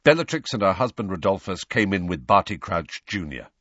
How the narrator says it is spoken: said Sirius in the same brusque voice

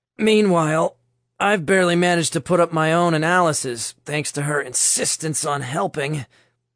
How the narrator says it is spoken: Nick grunted from the ground

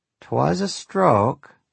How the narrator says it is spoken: she said in that long and drawling Yankee accent of hers

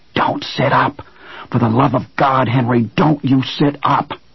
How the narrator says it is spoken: Owen whispered fiercely into Henry's ear

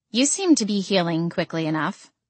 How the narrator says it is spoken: Ophelia said, her tone dry

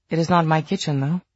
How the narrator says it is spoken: she added hastily

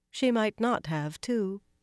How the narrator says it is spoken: Elaine replied calmly, more calmly than she felt

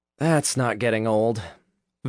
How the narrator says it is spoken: Vince sighed

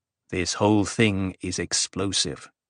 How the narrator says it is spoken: Cytel said, in a calmer voice

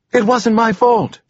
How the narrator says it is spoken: she blurted out, loud and angry, needing to lash out against someone

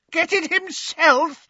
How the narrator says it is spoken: shrieked over a cackle of mad laughter

